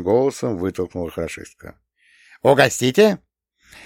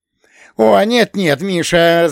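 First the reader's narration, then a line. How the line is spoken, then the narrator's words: Laughing. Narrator (Russian): засмеялся режиссер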